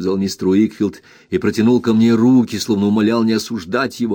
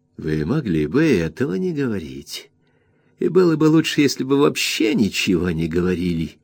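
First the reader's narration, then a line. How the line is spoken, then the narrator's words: Defiant yet ingratiating. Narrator (Russian): заметил Урия, вызывающий, вместе с тем вкрадчиво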